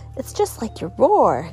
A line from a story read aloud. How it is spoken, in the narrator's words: giggled Bee